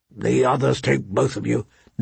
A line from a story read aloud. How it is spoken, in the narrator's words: Ned muttered darkly